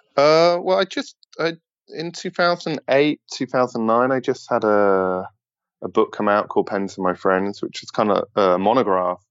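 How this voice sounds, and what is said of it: British accent. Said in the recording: “as listeners may be able to hear from your accent, you are originally from the UK”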